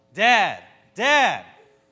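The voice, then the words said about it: Yelling. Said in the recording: “Quit yelling.”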